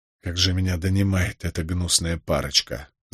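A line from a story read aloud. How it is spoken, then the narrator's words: Sighing. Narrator (Russian): вздохнул он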